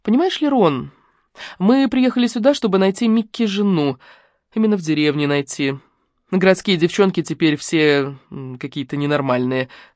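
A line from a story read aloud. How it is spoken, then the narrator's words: Calm, matter-of-fact. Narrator (Russian): пояснила Лариса так спокойно, словно речь шла о какой-то сущей ерунде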